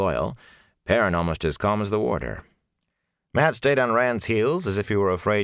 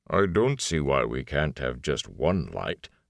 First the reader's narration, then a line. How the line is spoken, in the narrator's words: the Ogier grumbled